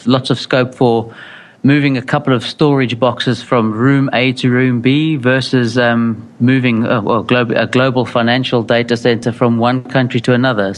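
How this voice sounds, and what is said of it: South African accent, slight Essex twang. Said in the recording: “it sounds a little more, I don't know, musical ... I have a very peculiar UK-based accent. It's called South African ... a South African with a slight, as my wife would call it, Essex twang”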